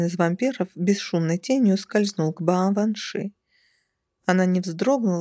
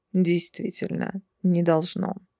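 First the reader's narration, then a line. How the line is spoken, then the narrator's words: Calm agreement. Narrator (Russian): спокойно согласился тот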